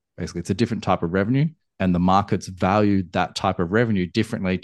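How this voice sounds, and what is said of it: Australian accent. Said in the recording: “that accent for everybody wondering is from Australia”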